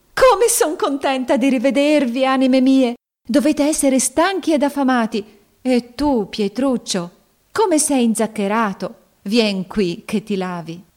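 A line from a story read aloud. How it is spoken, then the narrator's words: Joyful exclamation while embracing. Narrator (Italian): esclamò abbracciandoli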